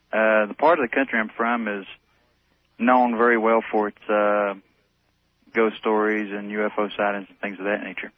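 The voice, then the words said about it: Slight North Carolina accent. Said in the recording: “I'm originally from North Carolina ... I can hear it in your voice. ... just a little bit of an accent.”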